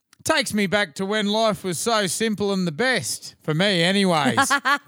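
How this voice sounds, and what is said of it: Imitates another person's voice. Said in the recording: “I'm going to do his voice.”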